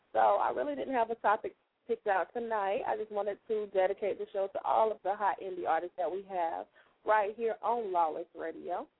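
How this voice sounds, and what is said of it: Hoarse, failing voice. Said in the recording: “As you can tell, I'm starting to lose my voice again ... now I'm losing my voice again”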